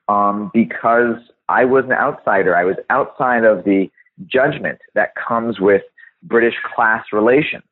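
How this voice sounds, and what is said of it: American accent. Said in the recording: “I have an American accent. It's pretty obvious”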